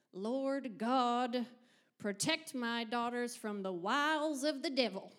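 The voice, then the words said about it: Put-on Southern American accent. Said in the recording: “In a Southern accent, of course.”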